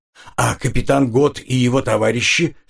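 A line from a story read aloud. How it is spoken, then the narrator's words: Plain. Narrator (Russian): спросил Макнейль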